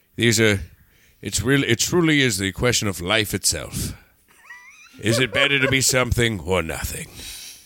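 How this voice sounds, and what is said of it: Imitates another person's voice. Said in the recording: “do a Gregory Peck voice”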